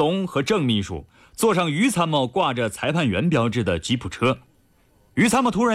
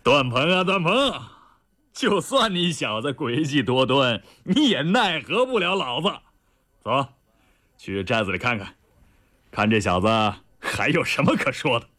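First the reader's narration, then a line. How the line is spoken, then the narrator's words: Loud hearty laugh. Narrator (Chinese): 李云龙仰天大笑道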